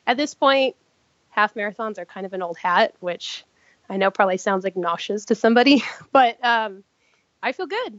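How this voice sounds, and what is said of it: Slightly sick-sounding voice. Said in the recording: “I've been sick, which is I'm sure you can kind of tell in my voice a little bit”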